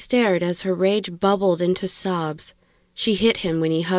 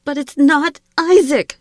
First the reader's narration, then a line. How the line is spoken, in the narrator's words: screamed